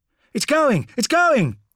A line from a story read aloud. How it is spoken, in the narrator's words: shouted someone at the back of the group